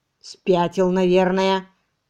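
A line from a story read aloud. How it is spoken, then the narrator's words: Creaky voices in unison. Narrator (Russian): в один голос проскрипели Пипс и Джеффрис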